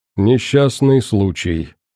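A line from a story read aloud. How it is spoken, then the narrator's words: Indifferent voice. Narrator (Russian): безразличным голосом прокомментировал Курт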